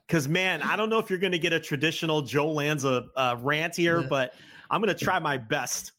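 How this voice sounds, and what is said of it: Strained, worn-out voice. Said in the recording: “this is like my seventh hour of audio and I'm losing my voice.”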